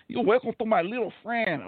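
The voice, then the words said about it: Bad put-on accent imitation. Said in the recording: “bad Mexican accent, it's almost as bad as Al Pacino doing Scarface”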